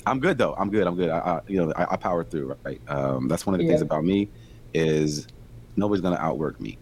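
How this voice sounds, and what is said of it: Strained, worn-out voice. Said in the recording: “I had something like in my throat. I was just coughing ... my voice is probably just getting shot”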